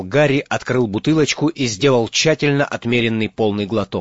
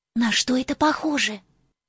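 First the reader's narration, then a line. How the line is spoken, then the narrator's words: Whispered. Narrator (Russian): прошептала Гермиона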